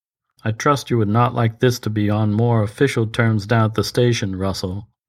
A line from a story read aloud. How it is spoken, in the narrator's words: said Monroe evenly